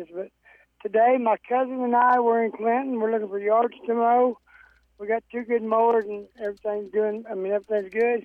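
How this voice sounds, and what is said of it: Hoarse voice from laryngitis. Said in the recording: “I hope you can understand me. I kind of got laryngitis”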